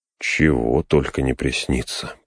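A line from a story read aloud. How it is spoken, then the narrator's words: Muttering. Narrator (Russian): пробормотал он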